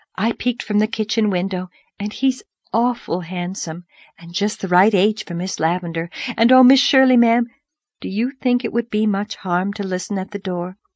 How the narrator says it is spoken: she breathed

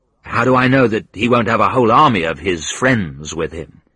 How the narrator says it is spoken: I asked

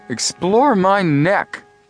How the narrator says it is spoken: grumbled Chet

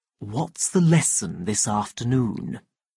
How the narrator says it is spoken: the director asked quietly

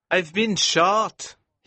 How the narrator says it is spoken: he cried

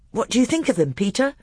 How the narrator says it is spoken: Edmund asked anxiously

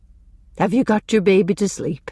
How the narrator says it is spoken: she asked kindly

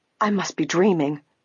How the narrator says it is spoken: Grace gasped

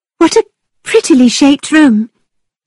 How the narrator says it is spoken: she cried

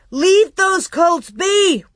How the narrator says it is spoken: Royal shouted

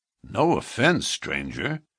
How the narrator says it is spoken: said one

